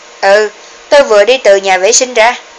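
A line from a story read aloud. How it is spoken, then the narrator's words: Impatient cold laugh. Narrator (Vietnamese): Trang Duy cũng không còn đủ kiên nhẫn nữa, mặt lạnh lùng, cười nói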